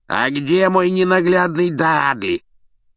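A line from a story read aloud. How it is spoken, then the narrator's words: Hoarse bark. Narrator (Russian): хрипло гаркнула тетушка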